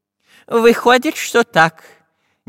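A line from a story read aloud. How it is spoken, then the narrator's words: Uncertain. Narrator (Russian): неуверенно кивнул головой профессор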